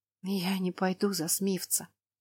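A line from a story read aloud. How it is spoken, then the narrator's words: Trembling whisper. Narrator (Russian): прошептала она дрожащим голосом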